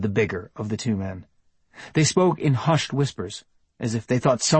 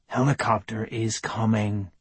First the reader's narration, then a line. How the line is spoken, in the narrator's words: responded the other man in a soothing voice